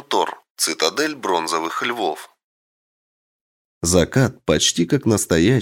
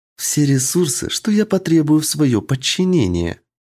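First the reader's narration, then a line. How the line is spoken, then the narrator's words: Sweet sing-song voice. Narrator (Russian): ласковым голосом пропела Эль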